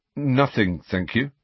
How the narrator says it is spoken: said Harry

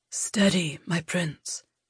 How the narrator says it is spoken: Yakis whispered

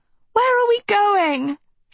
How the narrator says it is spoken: she yelled to Dot

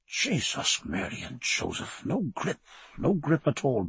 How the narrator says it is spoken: muttering

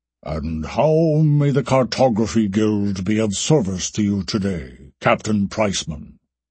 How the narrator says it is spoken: the gate master asked in a deep, orotund voice

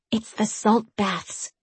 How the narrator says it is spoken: Jemmy whispered

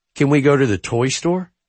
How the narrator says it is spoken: he asked

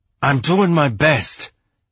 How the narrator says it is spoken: Bobby said through clenched teeth

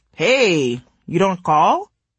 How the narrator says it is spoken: His tone suggested a joke

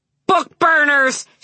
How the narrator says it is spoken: she had screamed at them, and for once she had not stuttered at all

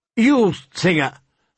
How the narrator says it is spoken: Sir Willis Word called out

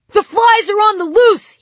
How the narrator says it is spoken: he shouted

